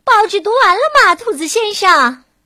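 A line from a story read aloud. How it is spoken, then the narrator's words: Loud shout. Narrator (Chinese): 还会冲着楼下大声喊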